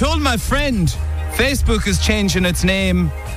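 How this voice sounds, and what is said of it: Usual voice. Nothing is said of it.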